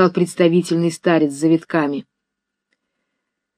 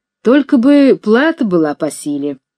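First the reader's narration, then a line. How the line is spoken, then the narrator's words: Deep bass voice. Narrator (Russian): сказал басом высокой, очевидно, уже предвидя, к чему идет дело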